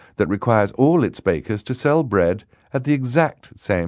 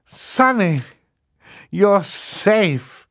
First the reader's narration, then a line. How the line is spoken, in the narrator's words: Klaus cried